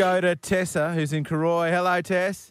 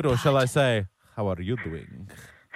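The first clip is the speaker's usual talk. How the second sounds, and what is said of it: Vague foreign accent, Puss in Boots. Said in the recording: “I don't even know what nationality that was ... Are you being Lebanese again? ... was that my Puss in Boots? ... every accent I do ends up as Puss in Boots”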